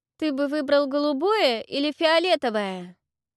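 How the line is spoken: Loud question. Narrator (Russian): громко спросила Венера

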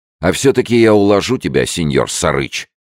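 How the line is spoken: Courteous shout. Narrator (Russian): любезно крикнул Фрэнсис вслед манчана

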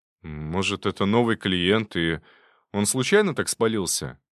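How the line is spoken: Uncertain guess. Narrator (Russian): неуверенно предположил он

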